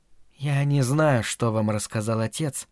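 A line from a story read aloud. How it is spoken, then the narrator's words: Timid, lowered voice. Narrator (Russian): робко проговорила она наконец, понизив голос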